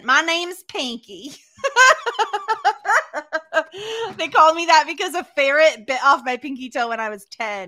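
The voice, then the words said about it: Put-on Southern accent. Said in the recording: “in a southern accent”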